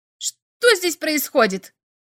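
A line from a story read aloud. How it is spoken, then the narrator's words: Shouting. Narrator (Russian): закричал он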